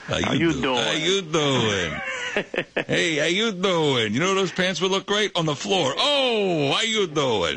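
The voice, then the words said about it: Imitates Joey's voice from Friends. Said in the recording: “great Joey impression”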